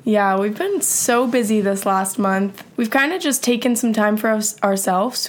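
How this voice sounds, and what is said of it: Rough, slightly congested voice. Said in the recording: “I have a little bit of a cold, too, so I've been kind of sick, and my voice is a little crazy right now”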